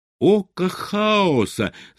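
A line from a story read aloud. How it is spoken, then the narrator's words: Shouting. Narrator (Russian): закричал он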